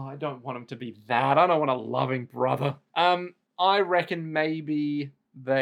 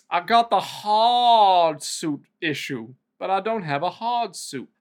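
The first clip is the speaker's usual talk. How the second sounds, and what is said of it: Put-on accent. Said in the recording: “I don't know why I'm putting on this accent”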